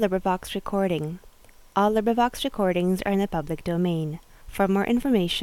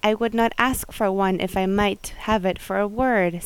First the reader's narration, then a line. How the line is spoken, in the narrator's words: said I